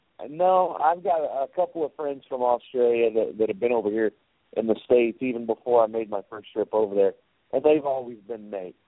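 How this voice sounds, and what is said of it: Oklahoma hillbilly accent. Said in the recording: “my Oklahoma accent or hillbilly accent”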